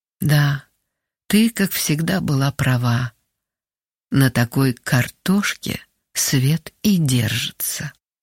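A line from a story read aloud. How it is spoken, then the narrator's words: Quiet, as if to someone unseen. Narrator (Russian): как будто говоря с кем-то невидимым, тихо произнесла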